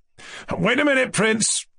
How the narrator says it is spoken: cried Rogojin

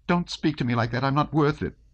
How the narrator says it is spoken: exclaimed Natasha

